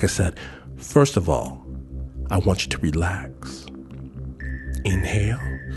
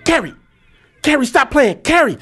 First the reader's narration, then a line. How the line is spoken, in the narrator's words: People started shouting